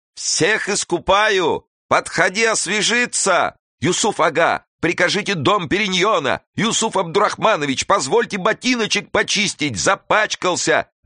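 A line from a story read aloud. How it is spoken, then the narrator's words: Servants shouting over each other. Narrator (Russian): Наперебой кричали служители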